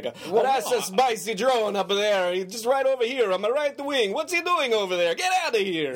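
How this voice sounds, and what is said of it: Bad put-on Italian accent. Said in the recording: “an Italian accent ... It's a bad accent imitation,”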